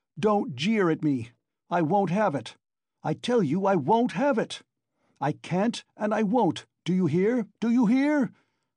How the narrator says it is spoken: he shouted

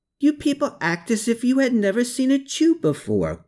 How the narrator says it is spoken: Gertrude called out with a big smile

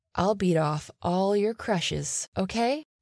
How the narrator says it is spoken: she whispered in my ear

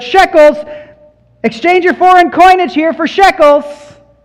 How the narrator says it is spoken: the money changers shouted out

